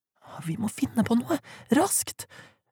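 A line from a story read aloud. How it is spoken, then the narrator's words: Desperate whisper. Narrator (Norwegian): hvisket Lydia desperat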